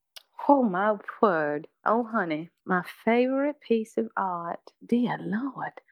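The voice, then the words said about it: Put-on Southern drawl. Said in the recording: “do her questions in an accent ... Let me get into my southern draw.”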